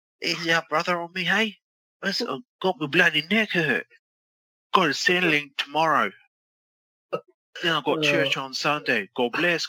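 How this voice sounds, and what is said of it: Bad wrestler impression, Australian accent. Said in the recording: “I'll do a voice. ... I'll do Aussie. ... You're the worst Hogan in the world”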